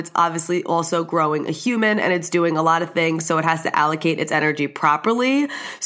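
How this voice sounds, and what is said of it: Congested voice from a cold. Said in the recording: “I'm currently kind of under the weather ... I have a cold cough. If you could hear it in my voice ... you could tell I probably sound a little bit different.”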